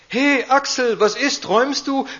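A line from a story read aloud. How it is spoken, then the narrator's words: Loud, pushy cheerfulness. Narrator (German): Laut und aufdringlich fröhlich kam Irmtraut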